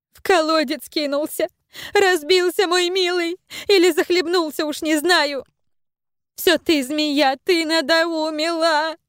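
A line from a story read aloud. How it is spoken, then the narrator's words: Anguished wail. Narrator (Russian): Взвыла молочница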